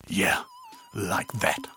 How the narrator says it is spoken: he gasps

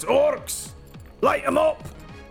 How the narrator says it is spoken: shouts backwards and says

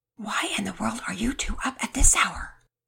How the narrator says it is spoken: Mama Peters whispered as loudly as a person can whisper

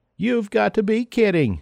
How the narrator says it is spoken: laughs

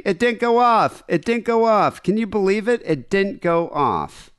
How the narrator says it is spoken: she kept screaming

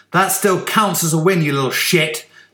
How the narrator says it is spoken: Stanley spat at him

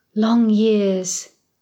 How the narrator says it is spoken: sighs

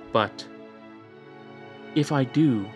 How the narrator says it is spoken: said, hesitantly

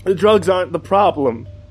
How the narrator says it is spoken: shouting at him

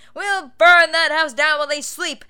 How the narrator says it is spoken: yelled Travis the blacksmith

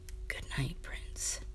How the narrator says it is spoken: whispering

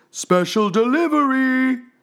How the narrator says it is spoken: at the top of their voices

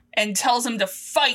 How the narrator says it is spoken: he yells

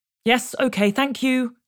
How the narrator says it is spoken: she snapped

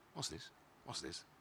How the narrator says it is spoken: muttered

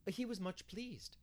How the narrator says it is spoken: said Anne brightly

